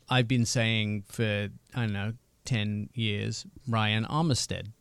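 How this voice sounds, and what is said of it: English accent. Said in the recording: “My English accent is quite a benefit to me”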